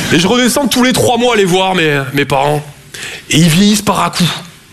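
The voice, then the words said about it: Toulouse southern French accent. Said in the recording (French): “Je viens de Toulouse à la base. Ouais, ça s'entend un peu. ... mon accent”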